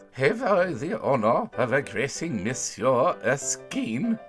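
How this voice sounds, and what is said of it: Slight French accent. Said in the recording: “said in a slight French accent”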